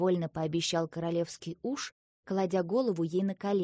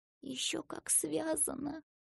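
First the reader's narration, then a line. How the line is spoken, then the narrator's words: Horrified whispered argument. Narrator (Russian): шепотом заспорила Ася и ужаснулась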